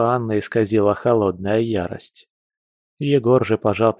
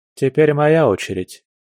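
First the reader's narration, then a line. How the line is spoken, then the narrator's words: Calm. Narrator (Russian): спокойно сказал Егор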